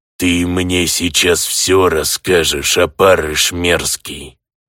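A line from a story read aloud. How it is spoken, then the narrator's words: Grating demonic goblin voice. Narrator (Russian): Каким-то совсем уж демоническим голосом проскрежетал гоблин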